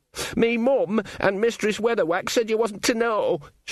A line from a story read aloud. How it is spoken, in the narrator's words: Sean wailed